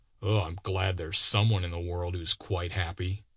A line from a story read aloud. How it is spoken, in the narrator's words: muttered a disappointed man